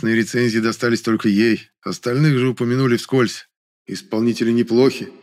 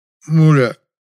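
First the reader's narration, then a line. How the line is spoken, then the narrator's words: Slurred babbling. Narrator (Russian): Еле ворочая языком, пролепетал Герасим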